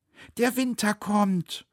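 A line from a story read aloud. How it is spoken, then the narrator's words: Calling out. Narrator (German): rief Neunauge ihm zu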